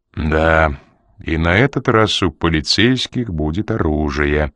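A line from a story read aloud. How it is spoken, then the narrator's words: Gloomy. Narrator (Russian): мрачно добавил Ян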